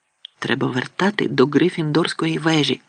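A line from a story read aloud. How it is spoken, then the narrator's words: Whisper. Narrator (Ukrainian): прошепотів Рон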